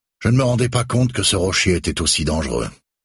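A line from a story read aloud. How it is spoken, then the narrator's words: Sighing. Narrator (French): soupire Becker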